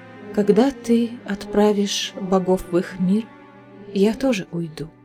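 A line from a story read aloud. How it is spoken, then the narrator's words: Plain. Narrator (Russian): сказала Элиана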